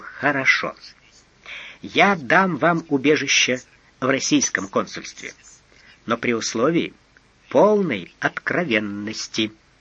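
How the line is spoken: Said gently. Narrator (Russian): Видя, что человек не в себе, Эраст Петрович мягко сказал

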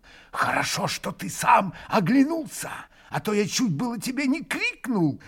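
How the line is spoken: Joyful hurried whisper. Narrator (Russian): Радостно и торопливо прошептал ему Дмитрий Федорович

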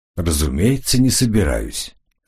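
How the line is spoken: Calm. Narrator (Russian): спокойно ответил Коридон

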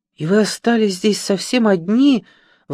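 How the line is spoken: Compassionate exclamation. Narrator (Russian): воскликнула жалостливая Сильви

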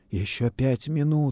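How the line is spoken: Whisper. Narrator (Russian): шептал Давыдов

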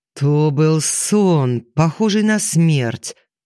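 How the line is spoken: Sudden bass roar. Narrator (Russian): Неожиданным басом взревел он, внезапно

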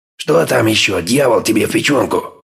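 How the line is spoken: Furious growl. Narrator (Russian): Разъяренный Олафсон уже не говорил, а рычал

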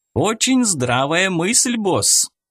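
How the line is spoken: Exclamation. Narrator (Russian): воскликнул Федя

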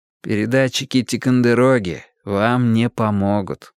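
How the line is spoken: Tired. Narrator (Russian): устало объяснил я

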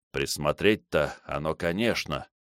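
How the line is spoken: Muttered. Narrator (Russian): пробормотал он

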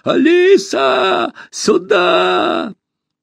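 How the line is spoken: Panicked shout. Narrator (Russian): Он кричал так, словно на него напал медведь

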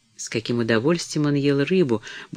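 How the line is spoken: Muttering to herself. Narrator (Russian): бормотала она про себя

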